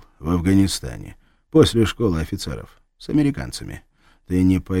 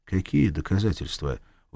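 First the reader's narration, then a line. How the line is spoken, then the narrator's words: Tired question. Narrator (Russian): устало спросил Махмуд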